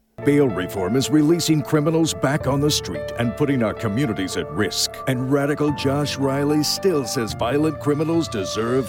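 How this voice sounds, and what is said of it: Polished radio announcer voice. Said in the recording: “I am jealous of that guy's voice. I want that to be my radio voice”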